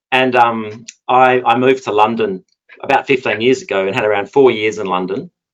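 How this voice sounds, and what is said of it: Australian Perth accent. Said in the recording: “accent is a Perth accent”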